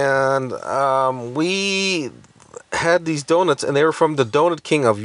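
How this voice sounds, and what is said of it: Usual voice. Nothing is said of it.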